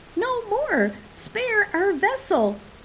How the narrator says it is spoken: the effects cried as one

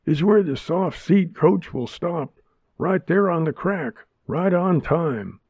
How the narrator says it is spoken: he exclaimed

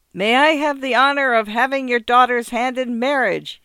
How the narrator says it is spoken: shouted, not realizing there was no subway noise

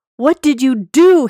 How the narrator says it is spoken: screamed

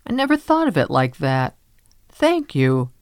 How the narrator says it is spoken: says, laughing

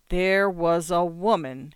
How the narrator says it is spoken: says slowly

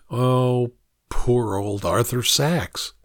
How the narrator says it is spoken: Like a mind reader, mutters

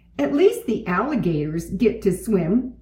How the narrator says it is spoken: said D

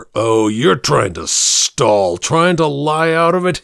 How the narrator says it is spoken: he spat out vehemently

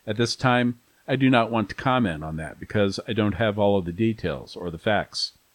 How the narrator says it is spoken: Conchas says

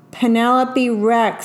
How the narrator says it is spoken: said Mrs

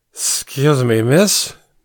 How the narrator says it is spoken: hiccuped and covered it with a giggle

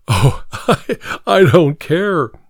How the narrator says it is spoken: he laughed

